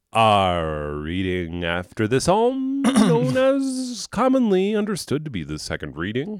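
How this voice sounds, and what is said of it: Old-timey old man radio voice. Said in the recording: “You're trying to do old-timey radio voice ... old man radio voice”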